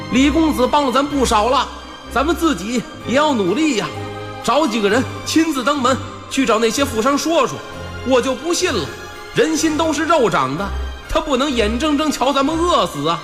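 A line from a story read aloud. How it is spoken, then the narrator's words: Sudden shout. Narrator (Chinese): 不知道底下是谁喊了一嗓子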